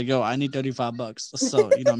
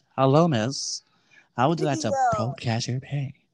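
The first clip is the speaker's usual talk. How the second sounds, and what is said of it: Put-on sexy voice. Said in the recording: “me as my sexy voice.”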